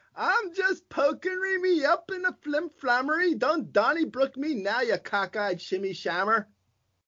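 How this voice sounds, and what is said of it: Put-on Irish accent, fairly good. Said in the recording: “That was pretty good. That was actually pretty good. I feel like I'm watching Peaky Blinders. ... I've heard a bevy of your accents. This was honestly the best one.”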